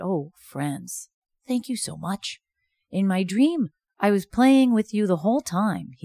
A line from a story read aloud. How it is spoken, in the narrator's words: he said